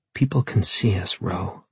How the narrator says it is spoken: she whispered

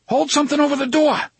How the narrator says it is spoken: Eddie shouted

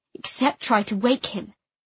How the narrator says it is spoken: I said coldly

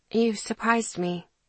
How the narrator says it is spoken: I said quietly

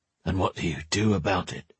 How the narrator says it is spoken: he muttered

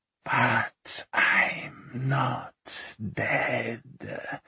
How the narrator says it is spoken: she whispered

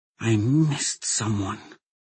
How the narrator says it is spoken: murmured

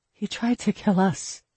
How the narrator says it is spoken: Alexia said softly

